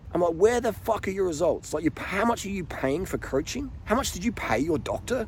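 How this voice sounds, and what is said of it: Broad Australian bogan accent. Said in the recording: “excuse the Aussie Bogan. I'm an Aussie Bogan. Let me speak Aussie Bogan ... if you don't like the Bogan talk”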